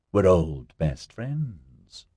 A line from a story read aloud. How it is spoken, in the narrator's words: Melanie drawled in her huskiest voice